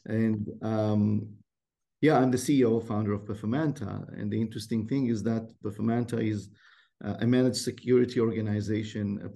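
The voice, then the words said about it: Israeli-accented English. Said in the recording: “It's an Israeli name. The accent would give it away that it's definitely not local.”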